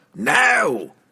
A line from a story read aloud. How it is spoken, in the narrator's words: The lead soldiers roared